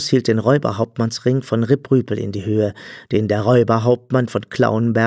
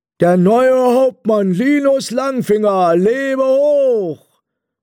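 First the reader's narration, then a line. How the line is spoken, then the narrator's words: Called out. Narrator (German): Dann rief Bert Beute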